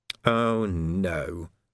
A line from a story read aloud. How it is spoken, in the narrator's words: he moaned